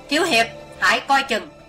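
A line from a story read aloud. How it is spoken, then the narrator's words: Sudden loud shout. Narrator (Vietnamese): Thình lình diệu thủ thiên sư hét to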